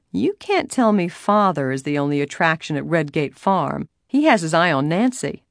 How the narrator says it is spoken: George said teasingly

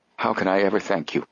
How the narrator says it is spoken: There were tears in his wife's eyes, and her voice trembled as she added

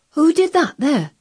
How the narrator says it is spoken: he cried

